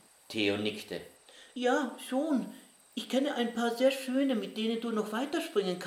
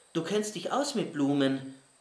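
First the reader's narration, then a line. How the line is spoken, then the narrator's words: Plain. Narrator (German): sagte Winnie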